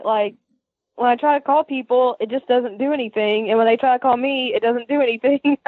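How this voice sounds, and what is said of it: Southern US accent. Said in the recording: “I love your voice so much. You remind me of home... Your accent reminds me of home, and I can tell you're like a sweet person from the south because you just have that sound to your voice”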